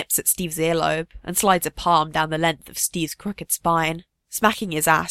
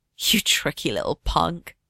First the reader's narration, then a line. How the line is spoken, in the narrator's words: Bucky murmurs, his breath close and hot